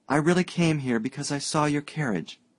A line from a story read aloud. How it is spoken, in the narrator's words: girl faltered